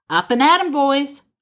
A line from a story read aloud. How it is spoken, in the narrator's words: shouts